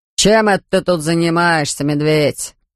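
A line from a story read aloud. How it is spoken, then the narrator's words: Suspicious grumble. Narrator (Russian): проворчал мистер Карри голосом, полным подозрения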